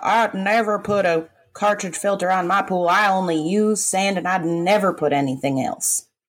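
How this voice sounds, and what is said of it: Put-on local Florida accent. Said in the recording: “mimicking the Port St. Lucie accent ... That wasn't Port St. Lucie. That was more like Pahokee.”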